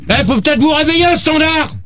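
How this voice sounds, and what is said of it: Shouting angrily. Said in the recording (French): “Ne gueule pas tout de suite. ... Arrête de crier, toi!”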